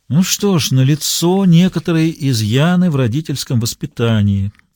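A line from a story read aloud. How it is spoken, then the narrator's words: Resigned sigh. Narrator (Russian): вздохнул Коллинз с видом человека, которому известно, чем все закончится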